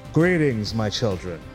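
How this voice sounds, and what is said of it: Booming character voice. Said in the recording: “in this booming voice”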